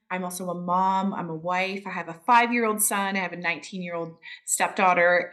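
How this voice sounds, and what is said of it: Canadian, Upper Midwest-sounding accent. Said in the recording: “You can hear ... accent from Canada ... it sounds just like how people talk in Upper Iowa and Minnesota”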